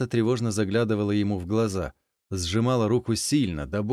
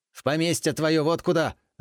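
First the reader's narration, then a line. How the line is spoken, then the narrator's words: Bark. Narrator (Russian): рявкнул он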